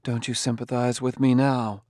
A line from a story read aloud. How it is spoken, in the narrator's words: She said in a low voice